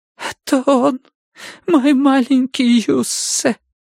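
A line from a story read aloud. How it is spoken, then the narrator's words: Silent gasp, then whisper. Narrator (Russian): Виолет беззвучно вскрикнула и прошептала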